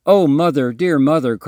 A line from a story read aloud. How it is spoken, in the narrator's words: cried Ernest